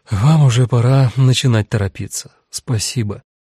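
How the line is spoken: Sighing. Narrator (Russian): женщина с радужными волосами вздохнула

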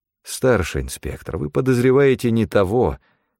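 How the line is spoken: Sad sigh. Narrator (Russian): печально вздохнул я

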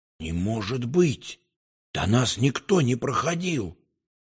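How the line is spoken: Whispered. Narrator (Russian): я прошептал

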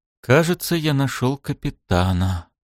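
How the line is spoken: Quiet. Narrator (Russian): тихо сказал Шем

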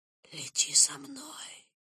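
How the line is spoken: Whisper. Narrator (Russian): прошептал он

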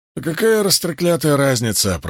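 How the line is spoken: Muttering. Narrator (Russian): пробурчал Уна

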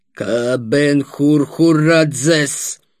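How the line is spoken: Wheezing asthmatic voice. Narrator (Russian): проговорил он свистящим астматическим голосом

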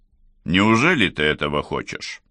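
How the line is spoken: Plain. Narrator (Russian): спросил Ричард

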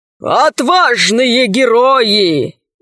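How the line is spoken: Hollow, muffled voice. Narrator (Russian): голос адмирала звучал глухо

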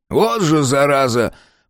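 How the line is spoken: Wheezy drunken male voice. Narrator (Russian): просипел сзади мужской голос, полный пьяной самоуверенности

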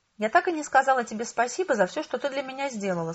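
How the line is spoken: Plain. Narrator (Russian): сказала она

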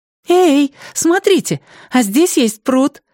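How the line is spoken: Joyful exclamation. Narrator (Russian): радостно воскликнула Сяо Мэн

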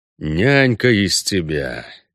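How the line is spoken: Grumble. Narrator (Russian): пробурчал Геральт

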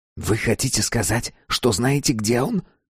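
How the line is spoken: Fervent whisper. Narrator (Russian): горячо зашептал он

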